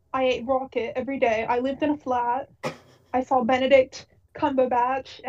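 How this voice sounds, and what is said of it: Put-on British accent, faltering. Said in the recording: “I can't even do this accent anymore. I can't finish this joke.”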